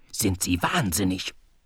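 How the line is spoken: Growled. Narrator (German): knurrte Kühne

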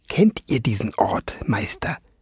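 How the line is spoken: Quiet question. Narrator (German): fragte leise

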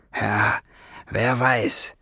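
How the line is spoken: Murmuring. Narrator (German): murmelte Schwefelfell

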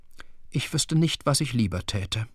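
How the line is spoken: Deeply sad. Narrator (German): sagte Johann tief traurig

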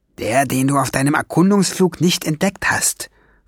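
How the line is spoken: Hissed. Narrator (German): fauchte Schwefelfell

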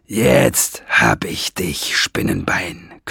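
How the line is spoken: Growling. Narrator (German): knurrte er

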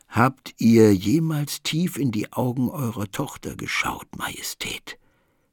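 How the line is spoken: Gentle question. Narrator (German): fragte Adrian sanft

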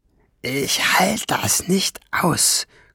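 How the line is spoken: Growl. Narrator (German): knurrte Schwefelfeld

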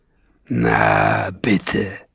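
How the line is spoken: Grunting. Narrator (German): grunzte er

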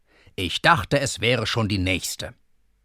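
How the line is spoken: Mocking. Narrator (German): erwiderte Schulze spöttisch

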